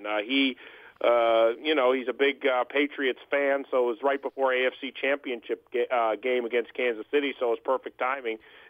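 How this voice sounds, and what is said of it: Boston-style American accent, old-time sound. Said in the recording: “I'm hearing a Midwest dialect ... Some people say I have a Boston accent, a Brooklyn accent ... You sound like one of the old guys.”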